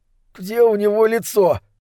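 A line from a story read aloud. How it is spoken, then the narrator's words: Strained, forced out. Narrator (Russian): выдавил он, с трудом заставляя себя глядеть на труп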